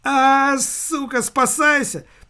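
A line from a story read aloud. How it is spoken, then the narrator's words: Shouted. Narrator (Russian): закричал распорядитель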